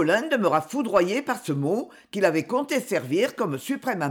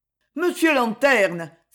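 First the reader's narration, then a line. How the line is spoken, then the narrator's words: Desperate exclamation. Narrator (French): s'écria Cogolin, désespéré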